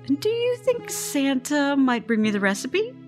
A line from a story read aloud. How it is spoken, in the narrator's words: Scarlet laughs